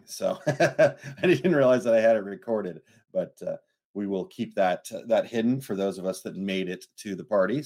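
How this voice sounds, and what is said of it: Crackly, hoarse voice. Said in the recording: “my voice is a little crackly this morning. I had a couple of drinks last night”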